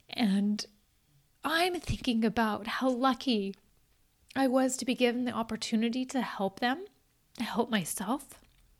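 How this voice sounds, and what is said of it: Tearful, emotional voice. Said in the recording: “as I get emotional ... Even as I cry”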